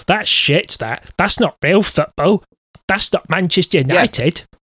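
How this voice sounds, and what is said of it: Imitates another person's voice. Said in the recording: “That's an eerily good impression of him.”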